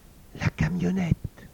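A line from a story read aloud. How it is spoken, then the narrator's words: Breathless whisper. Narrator (French): souffla Théodule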